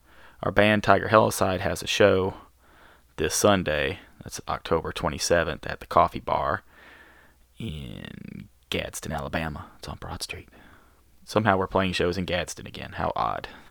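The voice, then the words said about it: Rough, worn-out voice. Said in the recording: “my voice sounds like crud, hear that ... I have killed my voice”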